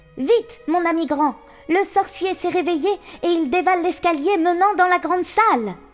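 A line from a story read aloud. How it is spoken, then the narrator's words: Exclaiming. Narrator (French): s'écria-t-il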